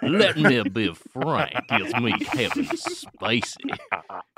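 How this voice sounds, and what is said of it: Kevin Spacey Southern accent impression. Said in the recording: “his funny Southern accent”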